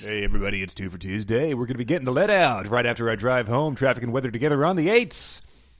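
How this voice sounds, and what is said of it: Radio DJ voice. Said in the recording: “DJ voices ... Let me hear your DJ voice.”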